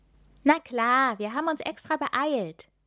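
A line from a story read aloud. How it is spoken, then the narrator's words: Cheerful reply. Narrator (German): erwidert Milan fröhlich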